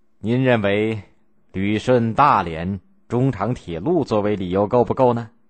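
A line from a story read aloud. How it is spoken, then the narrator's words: Faint calm smile. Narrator (Chinese): 罗斯福淡淡的一笑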